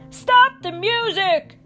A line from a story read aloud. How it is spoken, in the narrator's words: Charlie Brown shouted